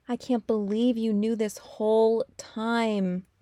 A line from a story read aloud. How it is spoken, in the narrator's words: Austin groans